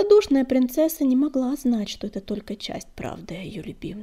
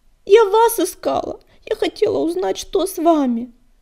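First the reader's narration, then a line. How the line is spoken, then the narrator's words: Trembling exclamation, princess. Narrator (Russian): дрожащим голоском воскликнула принцесса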